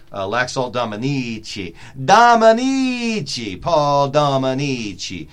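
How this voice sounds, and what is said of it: Bad put-on Italian accent. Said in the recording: “That is the worst Italian accent ever”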